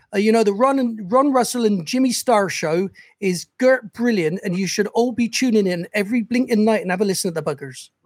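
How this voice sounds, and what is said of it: Bristol West Country accent. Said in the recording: “I'm from Bristol originally in the West Country... The accent for Bristol is a bit like this”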